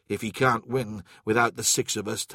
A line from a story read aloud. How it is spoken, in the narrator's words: Tarvitz said